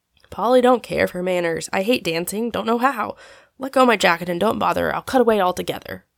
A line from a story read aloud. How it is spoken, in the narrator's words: growled Tom, daunted by the awful prospect of opening the ball with Polly